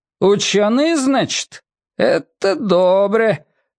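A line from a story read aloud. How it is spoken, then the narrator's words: Thin-voiced declaration. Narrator (Russian): тонким голосом заявил Дуримар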